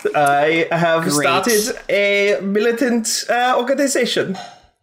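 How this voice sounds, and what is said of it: Put-on German accent. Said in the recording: “I have the German accent now.”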